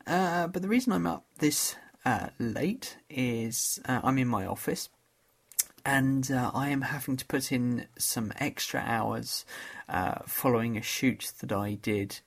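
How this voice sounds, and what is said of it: Tired, sleepy voice. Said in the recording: “I'm quite tired. You can probably tell from my voice.”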